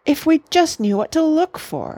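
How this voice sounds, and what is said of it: Worried voice. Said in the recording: “in a worried voice.”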